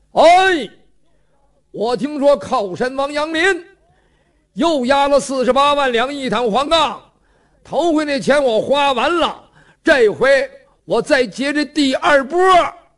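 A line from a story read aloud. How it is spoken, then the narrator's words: Shouting. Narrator (Chinese): 程咬金就喊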